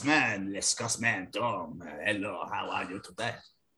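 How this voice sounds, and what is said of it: Put-on French accent. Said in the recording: “I'm French this week, haven't we? ... I think I shall speak as this French accent.”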